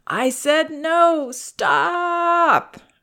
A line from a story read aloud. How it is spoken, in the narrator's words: whining and crying